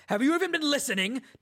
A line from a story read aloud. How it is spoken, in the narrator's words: Dalinar suddenly roared